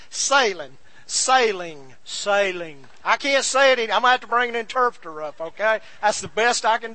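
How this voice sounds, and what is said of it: Southern American accent, drawn-out vowels. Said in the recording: “I know I'm speaking Southern here ... I drag my I's”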